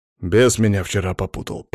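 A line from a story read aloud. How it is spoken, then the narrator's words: Mutter. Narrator (Russian): пробормотал Алексей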